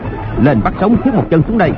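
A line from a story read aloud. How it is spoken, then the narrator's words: Shout. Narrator (Vietnamese): Hoàng Nhan Hồng Liệt quát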